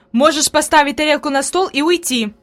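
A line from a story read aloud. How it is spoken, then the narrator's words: Angry. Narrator (Russian): произнесла Фрейлин сердито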